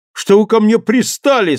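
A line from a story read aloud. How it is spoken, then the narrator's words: Tearful male outcry. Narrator (Russian): со слезами в голосе выкрикнул он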